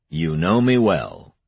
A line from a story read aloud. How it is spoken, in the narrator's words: he said